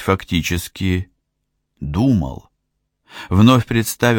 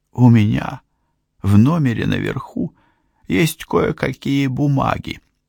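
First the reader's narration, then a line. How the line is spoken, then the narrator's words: Hoarse. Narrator (Russian): хрипло сказала Лидия Барри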